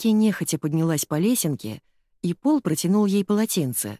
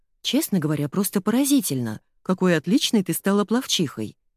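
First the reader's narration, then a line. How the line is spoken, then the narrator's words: Plain. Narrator (Russian): сказала она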